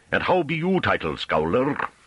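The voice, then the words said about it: Thick rustic accent, throaty rolled R's. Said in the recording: “His accent became noticeably more Hamish. His R's rolled throatily.”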